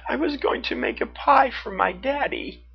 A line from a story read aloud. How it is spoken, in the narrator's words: she sobbed